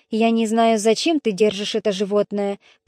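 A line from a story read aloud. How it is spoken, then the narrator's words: Grumbling. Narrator (Russian): проворчал Павзаний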